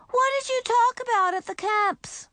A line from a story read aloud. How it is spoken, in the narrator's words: Beezus called out from her room